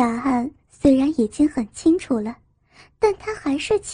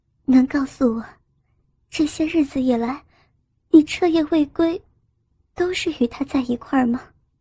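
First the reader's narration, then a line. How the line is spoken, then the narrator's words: Choked, sorrowful question. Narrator (Chinese): 颜汝儿心中泛过阵阵酸楚，她哽咽的问道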